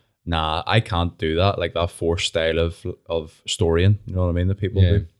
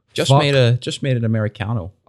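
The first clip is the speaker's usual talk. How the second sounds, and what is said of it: Put-on posh accent with American twinge. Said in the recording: “you're doing the Glasgow Uni accent ... Like an American twinge on it”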